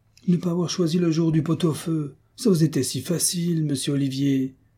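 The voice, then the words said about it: Pained, reproachful complaining tone. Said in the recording (French): “avec un accent de récrimination douloureuse”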